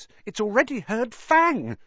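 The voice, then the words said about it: Unnaturally high-pitched voice. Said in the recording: “said Ron in an unnaturally high voice.”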